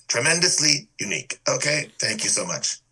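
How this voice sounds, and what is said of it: Imitates another person's voice. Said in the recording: “that was my Trump impersonation. ... It was fantastic.”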